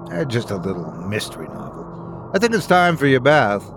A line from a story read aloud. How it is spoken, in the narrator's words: muttered